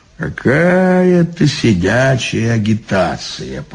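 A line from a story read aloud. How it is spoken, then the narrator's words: Grumbling. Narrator (Russian): проворчал он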